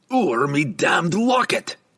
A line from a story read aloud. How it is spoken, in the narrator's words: Brunner roared